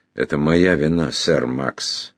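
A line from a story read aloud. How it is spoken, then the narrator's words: Sighing. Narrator (Russian): вздохнул Джуффин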